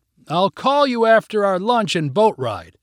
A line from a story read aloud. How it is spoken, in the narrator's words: Vicky shouted